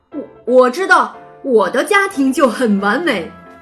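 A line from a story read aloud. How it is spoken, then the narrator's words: Young wolf answering. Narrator (Chinese): 一头叫维克多的小狼回答道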